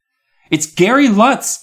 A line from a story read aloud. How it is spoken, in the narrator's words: I called out